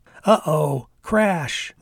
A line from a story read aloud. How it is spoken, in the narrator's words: Molly yelled out